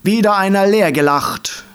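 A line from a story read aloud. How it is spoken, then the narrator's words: Dandelion calling out. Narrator (German): rief der Löwenzahn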